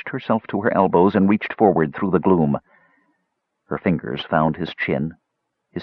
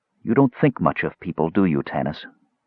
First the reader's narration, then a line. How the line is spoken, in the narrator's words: she asked gently